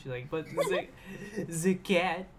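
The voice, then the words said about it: Mock French-Canadian accent. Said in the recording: “Is that your French-Canadian accent? ... Not very good.”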